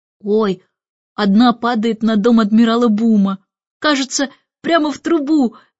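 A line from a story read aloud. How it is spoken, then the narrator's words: Excited exclamation. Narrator (Russian): воскликнул Майкл, враз забыв о пудинге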